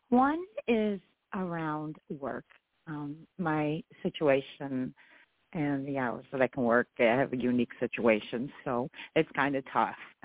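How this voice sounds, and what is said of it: Slightly hoarse voice. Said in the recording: “Forgive my voice. I'm a little hoarse.”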